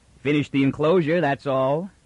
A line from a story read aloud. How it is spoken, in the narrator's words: the sergeant chuckled with a fatherly pride